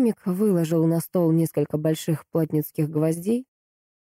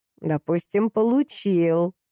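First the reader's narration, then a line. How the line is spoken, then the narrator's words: Mocking alchemist. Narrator (Russian): насмешливо проговорил алхимик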